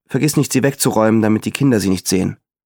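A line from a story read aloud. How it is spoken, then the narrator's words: Plain. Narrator (German): sagte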